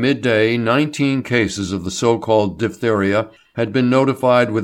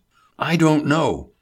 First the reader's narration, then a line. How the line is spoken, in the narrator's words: Hubert exclaimed